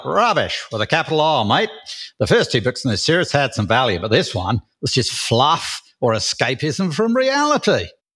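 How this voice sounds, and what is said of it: Attempted Australian accent. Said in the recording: “Can I do it in an Australian accent? ... That sounded British to me ... That's not British.”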